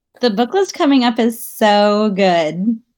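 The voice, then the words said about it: Smiling, happy-sounding voice. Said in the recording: “hear in my voice how huge I'm smiling ... I can hear it.”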